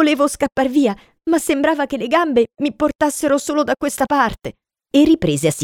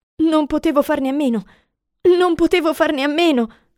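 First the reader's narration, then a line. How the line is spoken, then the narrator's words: Moaning. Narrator (Italian): gemette Potter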